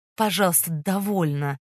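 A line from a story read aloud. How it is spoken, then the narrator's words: Soft but firm interruption. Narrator (Russian): Мягко, но решительно прервал живописательницу Фондорин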